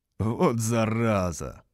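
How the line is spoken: Laughing. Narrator (Russian): рассмеялся я

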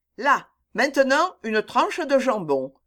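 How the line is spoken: Resolute command. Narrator (French): commanda Jack d'un ton résolu

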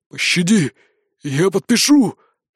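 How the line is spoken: Wheezing plea. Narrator (Russian): просипел он

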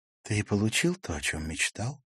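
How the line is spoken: Whisper. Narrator (Russian): прошептала Ракель

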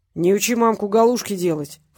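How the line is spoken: Snorted. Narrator (Russian): фыркнул Петренко

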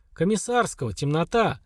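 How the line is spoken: Snort. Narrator (Russian): хмыкнул Слава

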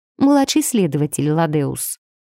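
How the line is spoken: Dry correction. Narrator (Russian): сухо поправила я его

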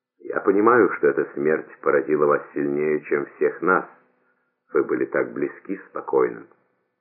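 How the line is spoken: Quiet. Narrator (Russian): он тихо проговорил

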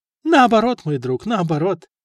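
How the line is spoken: Cheerful reply. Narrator (Russian): весело ответил ему Стефан

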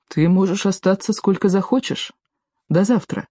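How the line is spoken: Plain. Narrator (Russian): сказал Теори

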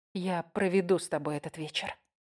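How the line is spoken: Quiet. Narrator (Russian): тихо ответила я

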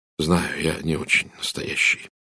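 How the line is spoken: Quiet. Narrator (Russian): тихо сказал Эдвард

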